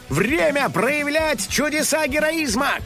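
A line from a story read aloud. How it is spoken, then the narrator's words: Shouting to himself. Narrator (Russian): крикнул сам себе великий детектив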